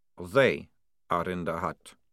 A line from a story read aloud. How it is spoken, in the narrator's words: said Maledict flatly